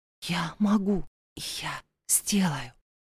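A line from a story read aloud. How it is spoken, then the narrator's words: Whisper. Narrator (Russian): прошептала она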